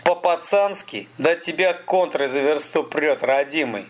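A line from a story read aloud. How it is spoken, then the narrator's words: Laughing. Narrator (Russian): Столяров засмеялся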